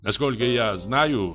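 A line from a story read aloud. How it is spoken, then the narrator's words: Plain. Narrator (Russian): сказал он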